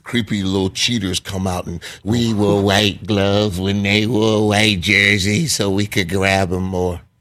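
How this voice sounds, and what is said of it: Imitates another person's voice. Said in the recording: “Is that your Belichick imitation?”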